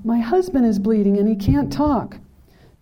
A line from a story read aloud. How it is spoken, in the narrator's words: then she screamed